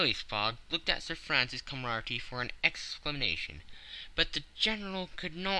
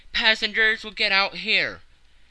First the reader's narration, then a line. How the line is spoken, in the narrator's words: The conductor shouted